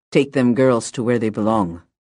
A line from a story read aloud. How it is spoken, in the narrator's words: Mike growled